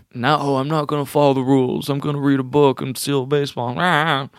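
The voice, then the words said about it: Imitates a character's voice. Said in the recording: “Was that a good impression? ... It was.”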